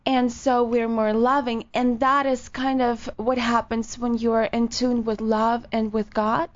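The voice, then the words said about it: Sensual Ukrainian accent. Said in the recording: “I'm Ukrainian. ... The accent is just already like sensual.”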